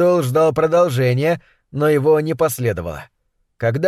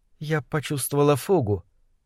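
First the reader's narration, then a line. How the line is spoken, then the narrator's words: Very quiet. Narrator (Russian): произнесла она так тихо, что ему пришлось задержать дыхание, чтобы услышать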